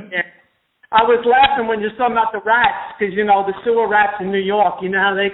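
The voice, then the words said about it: New York accent. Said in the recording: “You have a New York accent.”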